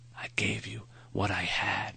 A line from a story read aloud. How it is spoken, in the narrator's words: he whispered